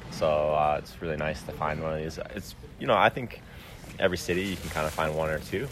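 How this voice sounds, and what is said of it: Low, groggy morning voice. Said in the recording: “got our morning voices ... I feel like my, my voice is an octave lower”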